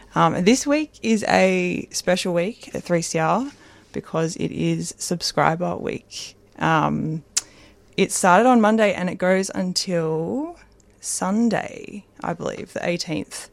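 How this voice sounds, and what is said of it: Croaky, hoarse voice. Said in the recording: “Sorry about my voice, a little bit croaky.”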